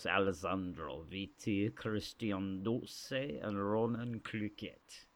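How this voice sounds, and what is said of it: Put-on Romanian accent. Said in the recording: “That was a new accent I'm working on ... it's actually a Romanian diplomat who likes to eat cheese”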